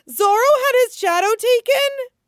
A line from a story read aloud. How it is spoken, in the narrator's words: Chopper squeals